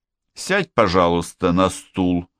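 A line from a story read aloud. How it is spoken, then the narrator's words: Irritated repetition. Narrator (Russian): повторил Штернхайм раздраженно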